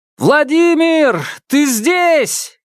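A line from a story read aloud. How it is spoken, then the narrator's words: Shouted. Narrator (Russian): крикнул Павел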